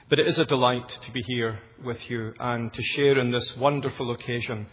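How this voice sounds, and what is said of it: Educated Glasgow Scottish accent. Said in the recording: “my accent, which, in case you're wondering, is educated Glasgow”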